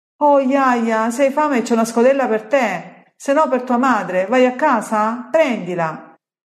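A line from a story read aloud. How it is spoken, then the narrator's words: Old woman shouting from afar. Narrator (Italian): Un'anziana grida dal fondo di un'ortaglia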